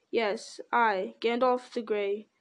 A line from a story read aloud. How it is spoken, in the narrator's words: said the wizard solemnly